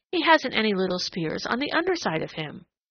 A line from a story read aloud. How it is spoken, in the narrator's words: he exclaimed